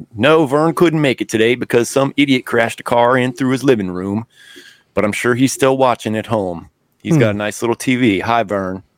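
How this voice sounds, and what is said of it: Ernest impression. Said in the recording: “terrible Ernest impression, half impression”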